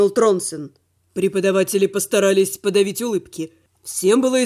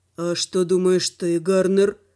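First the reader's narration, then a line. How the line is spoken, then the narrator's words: Tired question. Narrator (Russian): спросил Руфим, устало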